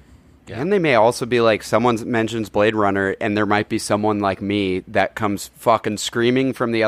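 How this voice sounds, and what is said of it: Usual voice. Nothing is said of it.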